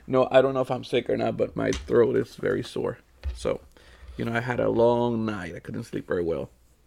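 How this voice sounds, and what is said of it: Raspy, scratchy voice. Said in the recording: “You hear this voice? ... You sound a little raspy ... Raspy ... scratchy-throated”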